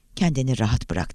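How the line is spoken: Whispering. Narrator (Turkish): diye fısıldadı

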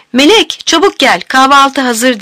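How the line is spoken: Shouted. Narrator (Turkish): diye bağıran Leyla

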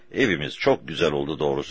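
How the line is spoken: Plain. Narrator (Turkish): dedi

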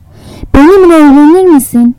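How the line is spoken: Shouted. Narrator (Turkish): diye bağırdı

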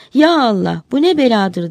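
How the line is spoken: Crying out. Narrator (Turkish): diye haykırmış

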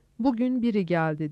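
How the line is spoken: Plain, a wife. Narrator (Turkish): dedi karısı

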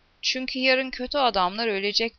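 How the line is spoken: Plain. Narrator (Turkish): dedi Hector

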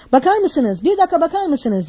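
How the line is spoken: Shouting repeatedly. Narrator (Turkish): diye bağırıp duruyordu

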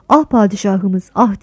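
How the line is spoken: Moaning. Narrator (Turkish): diye inledim

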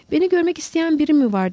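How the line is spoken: Interrupting shout. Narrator (Turkish): diye bağırdı Lowell, Holmes'un sözünü keserek

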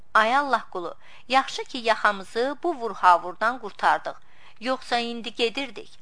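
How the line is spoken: Laughing. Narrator (Azerbaijani): Kazım gülərək dedi

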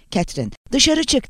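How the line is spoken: Shouting. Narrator (Turkish): diye bağırdı

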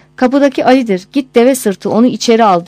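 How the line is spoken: Crying out. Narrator (Turkish): diye haykırmış

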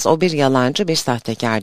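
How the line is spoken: Plain. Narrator (Turkish): dedi

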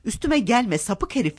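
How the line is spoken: Screamed at top of lungs. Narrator (Turkish): diye avaz avaz bağırdı

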